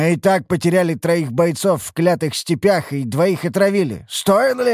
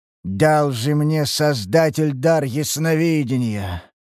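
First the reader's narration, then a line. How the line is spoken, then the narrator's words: Heavy man's tired sigh. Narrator (Russian): Вздохнул тучный мужчина, устало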